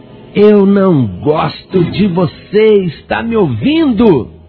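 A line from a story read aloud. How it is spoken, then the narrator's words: Very loud shout. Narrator (Portuguese): Ele gritou bem alto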